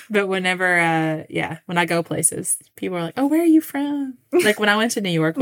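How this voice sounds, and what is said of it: Kentucky Southern accent. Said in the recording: “They probably hear our accents and they know right away. Yeah. Not least those Kentucky girls ... Do we sound like we're from Kentucky? ... I don't even think my accent's that bad.”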